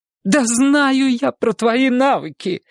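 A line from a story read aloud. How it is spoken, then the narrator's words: Nearly shouting. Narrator (Russian): почти закричала директор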